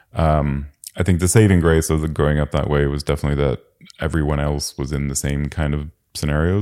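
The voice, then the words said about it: Mixed international accent, sounds North American. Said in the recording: “the weird accent where most people think I'm American, or at least most Europeans think I'm American. Americans think I'm Canadian.”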